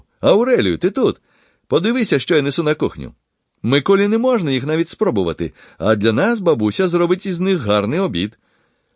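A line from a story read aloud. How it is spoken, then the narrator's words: Exclaimed. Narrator (Ukrainian): він вигукнув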